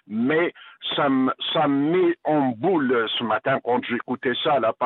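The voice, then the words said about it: Non-local accent, not Saguenay Québécois. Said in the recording (French): “j'entends votre accent. Ce n'est pas l'accent du Saguenay-Lac-Saint-Jean, là. Fait que vous êtes un Québécois venu d'ailleurs”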